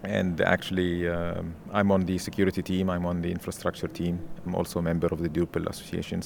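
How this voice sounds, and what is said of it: Egyptian accent. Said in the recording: “originally from Egypt. That's why you have an accent there.”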